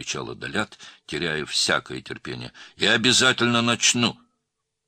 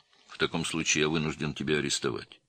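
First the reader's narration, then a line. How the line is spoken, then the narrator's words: Calm officer's voice. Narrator (Russian): спокойно сообщил подполковник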